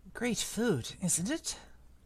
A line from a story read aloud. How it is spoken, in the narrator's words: Ron muttered to Harry through the hangings